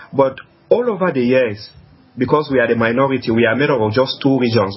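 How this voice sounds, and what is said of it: Strong accent, hard to understand. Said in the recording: “Sometimes there is the accent, the language barrier here.”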